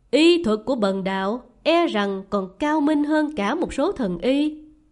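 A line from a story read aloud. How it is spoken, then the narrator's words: Smiling. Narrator (Vietnamese): Linh Hư Sơn Nhân mỉm cười nói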